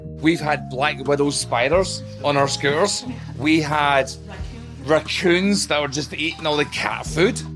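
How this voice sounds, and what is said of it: Heavy Irish accent. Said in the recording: “is Irish and moved to America 20 years ago. He's still got a heavy accent ... I admit I struggle with his accent.”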